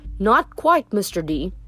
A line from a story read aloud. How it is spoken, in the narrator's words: Mishron said